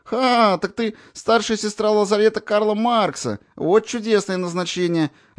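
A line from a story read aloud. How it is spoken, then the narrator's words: Babbling, laughing hard. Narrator (Russian): лепетали, покатываясь со смеху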